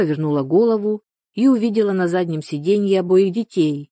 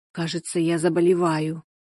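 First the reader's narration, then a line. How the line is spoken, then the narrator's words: Whispered. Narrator (Russian): прошептала она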